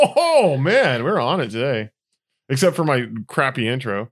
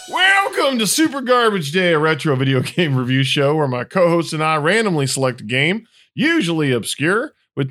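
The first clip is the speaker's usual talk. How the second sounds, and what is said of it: Put-on Texas accent. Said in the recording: “I don't know what I'm doing with this Texas accent.”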